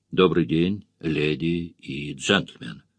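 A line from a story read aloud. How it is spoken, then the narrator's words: Timid ragged chorus. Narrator (Russian): Присяжные под впечатлением поздоровались робко и нестройно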